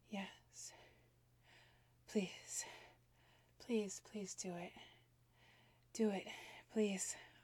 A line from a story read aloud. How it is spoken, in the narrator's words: gasped